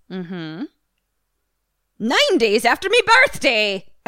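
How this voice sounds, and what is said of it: Put-on Irish witch accent. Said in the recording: “Practicing my Irish witch accent.”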